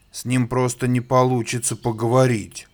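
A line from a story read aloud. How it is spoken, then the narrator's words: Hippo grumbling from lake. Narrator (Russian): ворчал бегемот из своего озера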